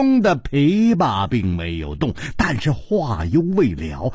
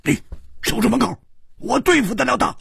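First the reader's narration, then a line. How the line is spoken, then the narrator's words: Shouting through gritted teeth. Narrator (Chinese): 吴青天咬了咬牙，喝道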